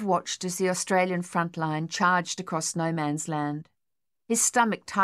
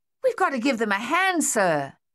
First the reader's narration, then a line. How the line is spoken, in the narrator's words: Thaddeus yelled